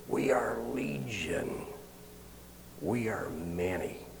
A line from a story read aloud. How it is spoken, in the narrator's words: an evil hiss when they said